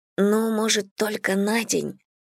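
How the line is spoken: Whispered. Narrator (Russian): прошептал

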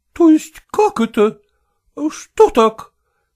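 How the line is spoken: Somewhat frightened question. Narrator (Russian): несколько испуганно спросила Зоя Кондратьевна

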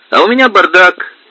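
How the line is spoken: Cheerful. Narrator (Russian): весело сообщил Игорь

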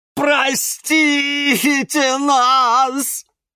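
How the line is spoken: Sudden loud sobbing. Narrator (Russian): вдруг громко зарыдал Алоэ

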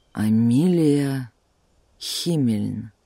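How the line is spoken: Slow frowning repetition. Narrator (Russian): медленно повторил он, нахмурившись

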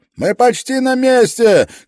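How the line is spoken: Shouted reply. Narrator (Russian): крикнул в ответ пилот, не поворачивая головы

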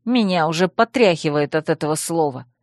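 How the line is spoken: Grumbling. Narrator (Russian): пробурчала я

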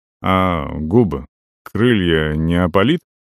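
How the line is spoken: Smirking grunt. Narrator (Russian): хмыкнул я

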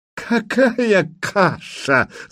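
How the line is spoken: Loud laughter. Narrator (Russian): захохотал Курей

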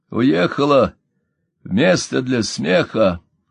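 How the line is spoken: Hoarse rasp, then laughing. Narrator (Russian): прохрипел Пол и сам засмеялся

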